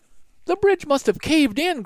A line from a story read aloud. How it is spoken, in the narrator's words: cried Annie